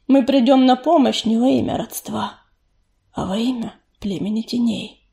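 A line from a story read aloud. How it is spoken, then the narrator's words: Soft reply. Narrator (Russian): мягко ответил он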